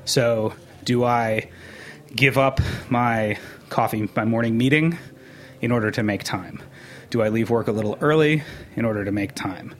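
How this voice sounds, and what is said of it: Out of breath speaking. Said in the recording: “you can hear I'm out of breath”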